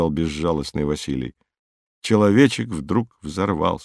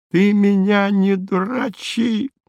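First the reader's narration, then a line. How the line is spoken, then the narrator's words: Shrieking. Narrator (Russian): завизжал он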